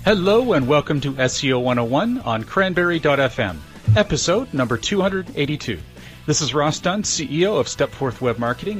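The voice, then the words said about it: Polished radio-announcer voice. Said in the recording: “you really have a good radio voice ... he sounds good on the radio”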